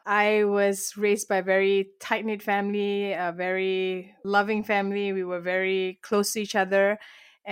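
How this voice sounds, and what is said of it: Malaysian accent. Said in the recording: “I was born and raised in Malaysia, and that's where this beautiful accent comes from.”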